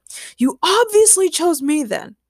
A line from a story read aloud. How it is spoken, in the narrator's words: yelled Ray